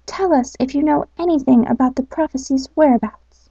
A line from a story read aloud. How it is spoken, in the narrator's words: added the owl timidly